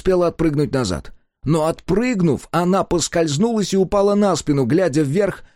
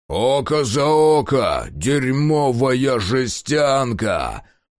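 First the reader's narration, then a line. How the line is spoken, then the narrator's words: Growling. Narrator (Russian): прорычал высокий Гривар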